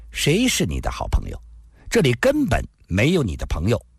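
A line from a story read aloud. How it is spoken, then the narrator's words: Cold, interrupting. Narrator (Chinese): 没有让他把话说完，冷冷地说道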